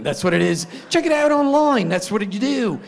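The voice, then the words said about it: Bad put-on British accent. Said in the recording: “there's my worst British accent right there”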